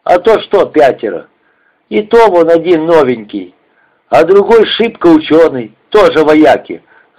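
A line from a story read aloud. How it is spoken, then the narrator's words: Angry grumbling. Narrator (Russian): зло ворчал он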